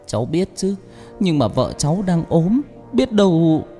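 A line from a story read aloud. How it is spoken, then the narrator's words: Shaky voice. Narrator (Vietnamese): Chồng Thoa nói bằng giọng run run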